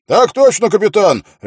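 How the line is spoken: Barked. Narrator (Russian): рявкнул Квин

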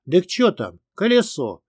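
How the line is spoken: Noisy crowd clamor. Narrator (Russian): Загомонили люди

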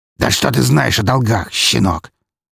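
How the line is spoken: Angry spitting. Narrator (Russian): зло выплюнул

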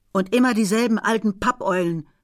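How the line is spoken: Calling back. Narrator (German): rief sie zurück

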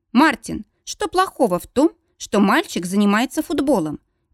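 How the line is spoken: Peaceable, conciliatory. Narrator (Russian): миролюбивым голосом замечает Стелла

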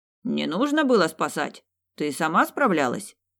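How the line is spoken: Scoffing grunt. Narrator (Russian): Джек хмыкнул

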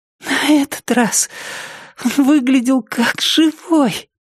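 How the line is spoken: Wheezy rasp. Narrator (Russian): просипела она

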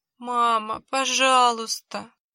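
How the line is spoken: Sobbing plea. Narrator (Russian): всхлипнул Кеша

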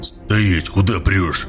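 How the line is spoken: Growl. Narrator (Russian): прорычал Гоблин

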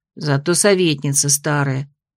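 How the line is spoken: Quick gloomy reply. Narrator (Russian): тотчас мрачно откликнулась другая

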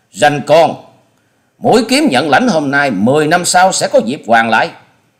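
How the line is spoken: Hissing with terror and hatred. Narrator (Vietnamese): Truy Hồn Trảo kinh mạc thất sắc, ánh mắt lóe ra sự hận thù, cắn môi rít tiếng

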